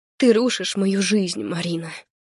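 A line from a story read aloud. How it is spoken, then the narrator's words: Hoarse, ragged. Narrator (Russian): Хрипло рвано произношу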